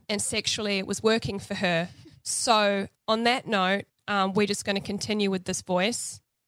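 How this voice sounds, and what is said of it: Congested, altered voice from a cold. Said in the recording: “I'm actually in the midst of a cold, so my voice is a little crazy ... I sound a bit different ... I just have a messed up cold”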